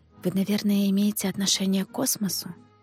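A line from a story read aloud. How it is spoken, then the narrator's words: Whispered question. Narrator (Russian): шепотом спросила его Катерина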